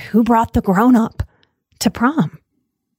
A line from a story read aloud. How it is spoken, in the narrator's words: My peers whispered